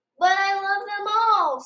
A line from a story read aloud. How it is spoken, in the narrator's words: Spencer cried